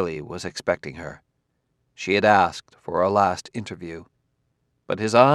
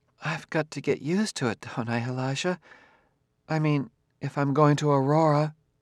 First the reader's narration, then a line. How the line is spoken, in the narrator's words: she smiled weakly